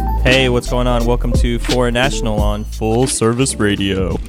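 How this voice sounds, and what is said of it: Very deep radio announcer voice. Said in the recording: “you came on with your very deep radio voice ... That's my Glenn Hollis voice.”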